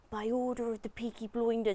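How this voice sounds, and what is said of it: Put-on Birmingham Brummie accent. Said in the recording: “that's my brum accent”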